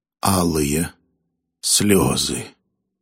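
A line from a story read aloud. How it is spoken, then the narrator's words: Calm. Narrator (Russian): спокойно ответил Фамум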